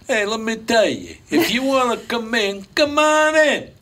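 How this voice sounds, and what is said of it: Put-on Italian accent. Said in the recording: “Italians ... you could still do that accent because it doesn't offend anybody”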